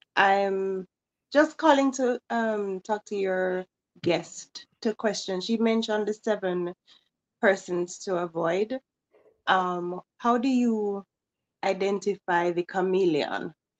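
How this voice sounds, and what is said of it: Jamaican accent. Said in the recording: “accent. ... I'm originally from Jamaica.”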